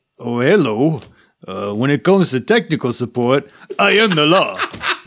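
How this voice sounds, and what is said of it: Attempted Indian accent. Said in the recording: “how you do it with an Indian accent, I don't know”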